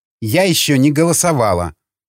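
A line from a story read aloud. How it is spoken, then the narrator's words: Exclaimed. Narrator (Russian): воскликнула Мадлен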